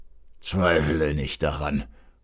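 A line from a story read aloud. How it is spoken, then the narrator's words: Pained grumble, old count. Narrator (German): brummte der Graf mit einem Zucken in dem kranken Beine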